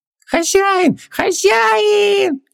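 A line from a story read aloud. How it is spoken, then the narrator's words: Happy squeak. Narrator (Russian): счастливо запищал Хубаксис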